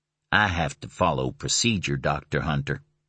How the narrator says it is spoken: he said calmly

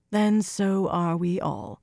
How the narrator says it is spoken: Atheniella breathed

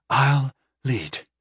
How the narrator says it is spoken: Nothwa said with a sigh of resignation

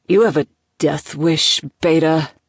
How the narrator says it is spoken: Oscar growled

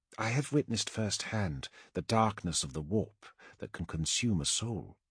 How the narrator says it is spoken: she replied quietly

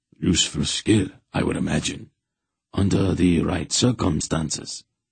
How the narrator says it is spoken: Hetar said blandly

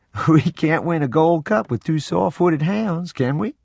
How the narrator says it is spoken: Papa chuckled and said

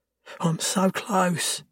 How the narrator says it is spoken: she whimpers

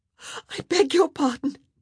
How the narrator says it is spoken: she gasped, clasping a hand over her horrified mouth

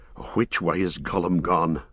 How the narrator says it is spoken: panted Sam

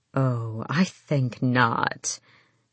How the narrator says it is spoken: Mother Blackbeak purred

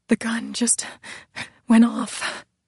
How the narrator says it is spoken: Gabriella whispered, her voice the tone of hysteria

